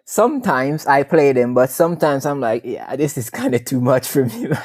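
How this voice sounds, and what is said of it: Jamaican accent. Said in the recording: “I'm sure all of you can hear the accent. from Jamaica originally.”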